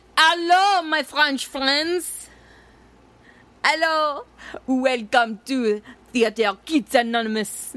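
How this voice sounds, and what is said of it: Exaggerated put-on French accent. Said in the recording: “That was terrible. But before I went all chintzy and weird, then it was good. ... my French accent”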